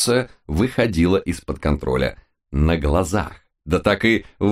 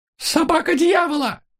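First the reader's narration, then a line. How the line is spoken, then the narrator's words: Squeaky old woman. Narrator (Russian): пискнула всезнающая баба Дуся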